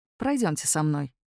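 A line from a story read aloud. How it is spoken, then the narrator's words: Gently insistent, almost tender. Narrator (Russian): велел Атикус с мягкой настойчивостью, почти нежно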